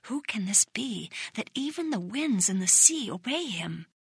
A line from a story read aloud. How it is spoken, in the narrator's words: The people whispered among themselves